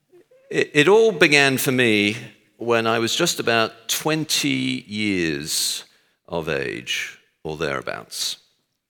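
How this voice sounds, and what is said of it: Texan American accent. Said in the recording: “As you can tell from my accent, I was born in Texas.”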